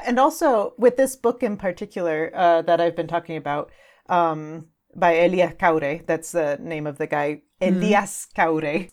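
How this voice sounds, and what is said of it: Regional accent in pronunciation. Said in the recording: “That was my kind of regional accent coming through there.”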